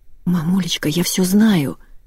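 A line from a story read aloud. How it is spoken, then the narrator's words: Daughter's whisper. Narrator (Russian): зашептала дочь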